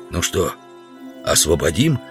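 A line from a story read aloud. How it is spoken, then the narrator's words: Whispered question. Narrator (Russian): спросил шепотом Удалов у Грубина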